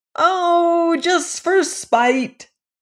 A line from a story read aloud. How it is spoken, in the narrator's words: bawled the dwarves carelessly, as if they were saying just for fun